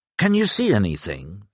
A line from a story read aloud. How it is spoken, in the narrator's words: asked Gallen anxiously